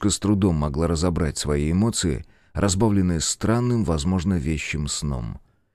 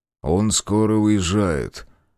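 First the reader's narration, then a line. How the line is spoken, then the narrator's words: Flat, impassive. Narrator (Russian): бесстрастным тоном сказал парень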